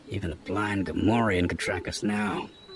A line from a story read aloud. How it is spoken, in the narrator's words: he grumbled